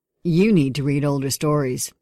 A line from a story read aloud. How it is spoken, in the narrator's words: I grunt